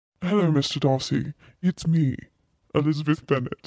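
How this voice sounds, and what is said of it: Put-on English accent. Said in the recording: “Give me your English accent version of that role”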